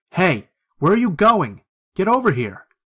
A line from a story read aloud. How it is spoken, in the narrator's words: a lady with blonde hair shouting